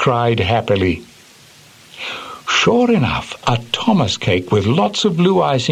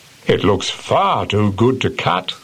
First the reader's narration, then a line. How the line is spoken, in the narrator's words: said the driver